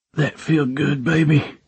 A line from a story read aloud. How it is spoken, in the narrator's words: I groaned into her ear